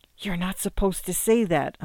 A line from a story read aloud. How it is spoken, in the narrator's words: Amanda whispered back